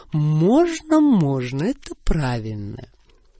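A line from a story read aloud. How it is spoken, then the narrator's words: Gentle purring. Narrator (Russian): Я ласково мурлыкала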